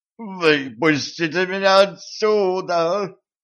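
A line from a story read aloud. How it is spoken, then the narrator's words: Howling, muffled demon. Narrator (Russian): взвыл главный демон, заклинившийся в первом же колене извилистого дымохода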